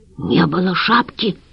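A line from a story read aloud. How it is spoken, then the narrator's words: Passionate whisper. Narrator (Russian): страстным шепотом сказала Валентина Петровна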